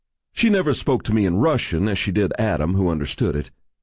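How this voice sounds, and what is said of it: Usual voice. Nothing is said of it.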